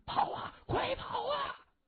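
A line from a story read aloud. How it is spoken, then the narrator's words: Shouted. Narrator (Chinese): 喊声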